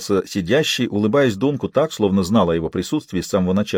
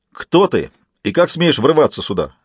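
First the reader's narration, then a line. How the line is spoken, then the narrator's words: Sharp question. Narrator (Russian): резко осведомился он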